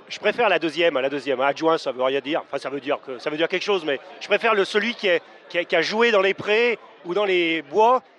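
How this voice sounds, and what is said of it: Lyon regional French accent. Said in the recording (French): “mon accent montre que je suis un gone”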